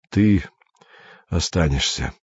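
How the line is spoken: Tired. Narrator (Russian): сказал Андрей устало

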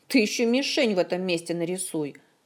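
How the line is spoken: Snapping retort. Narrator (Russian): огрызнулась Зинь

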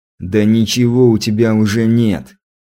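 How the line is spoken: Snorting hmph. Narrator (Russian): хмыкнул я

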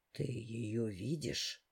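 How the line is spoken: Hoarse, shocked reply. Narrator (Russian): хрипло, с нотками потрясения отозвался ментор

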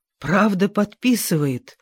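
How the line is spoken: Breathless exclamation. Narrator (Russian): выдохнула мисс Хевишем

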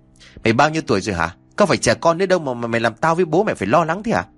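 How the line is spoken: Angry scolding shout. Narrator (Vietnamese): anh đã tức giận rồi quát

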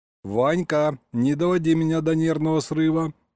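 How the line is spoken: Stern declaration. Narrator (Russian): строго заявил Саня

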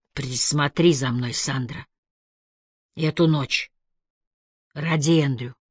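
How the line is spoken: Whispered. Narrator (Russian): прошептал

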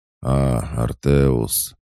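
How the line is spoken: Dry, lifeless voice. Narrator (Russian): произнес он сухим, мертвым голосом

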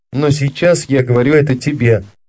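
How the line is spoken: Plain. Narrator (Russian): сказал Бернар

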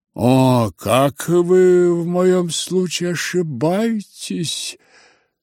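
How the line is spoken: Quiet conciliatory voice. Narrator (Russian): подхватил швейцарский пациент тихим и примиряющим голосом

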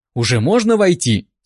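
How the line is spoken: Slightly irritated question. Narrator (Russian): слегка раздраженно спросила она

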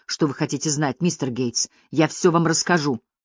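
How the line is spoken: Continuous mumbling. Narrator (Russian): все время бормоча

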